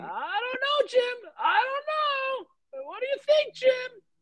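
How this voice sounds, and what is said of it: Impression of Tony Romo. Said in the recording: “this guy Tony Romo that we're all so in love with his announcing ... That's my impression of him.”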